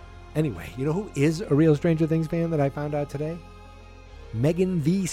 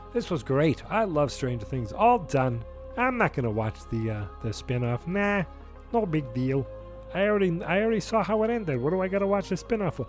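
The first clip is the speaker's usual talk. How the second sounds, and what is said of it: Character voice of a phony fan. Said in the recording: “That's my impersonation of a guy who is not a real Stranger Things fan. Okay, he's phony.”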